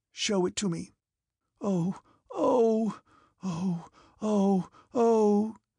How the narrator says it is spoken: His frightened moans could be heard, subdued by suffering and broken by sobs

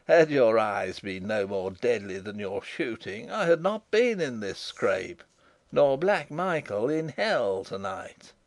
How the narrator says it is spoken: laughed Rupert

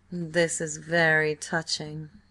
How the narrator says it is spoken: sneered Robert

